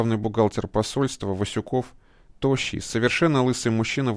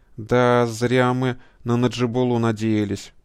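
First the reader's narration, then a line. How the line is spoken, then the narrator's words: Sad. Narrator (Russian): Печально кивает завхоз Семеняка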